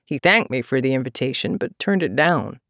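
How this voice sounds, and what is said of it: Flat American accent. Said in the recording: “in his flat American accent”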